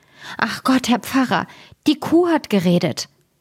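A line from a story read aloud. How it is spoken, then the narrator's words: Hurried urgent cry. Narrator (German): Sie lief in größter Hast zu ihrem Herrn und rief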